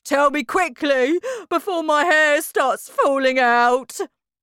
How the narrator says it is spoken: cried Mr

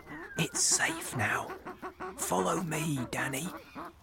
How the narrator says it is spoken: my father whisper

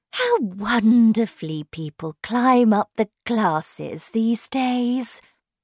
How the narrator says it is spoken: Miss Bartlett sighed

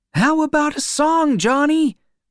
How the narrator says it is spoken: someone cried

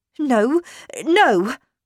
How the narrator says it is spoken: cried

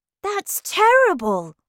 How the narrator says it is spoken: I cried

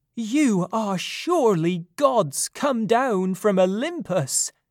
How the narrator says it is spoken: he cried

